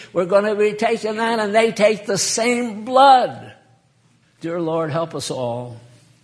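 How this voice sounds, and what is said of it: Yelling preacher. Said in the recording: “why are you yelling?”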